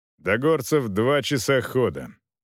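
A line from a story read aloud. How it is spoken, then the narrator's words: Dry tone. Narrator (Russian): сухо проговорил Волков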